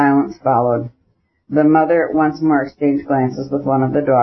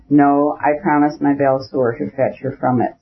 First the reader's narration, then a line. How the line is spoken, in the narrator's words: said Levin